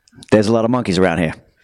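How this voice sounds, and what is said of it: Imitates another person's voice. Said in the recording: “does a great De Niro imitation ... my De Niro impression ... very performance based, very visual impression”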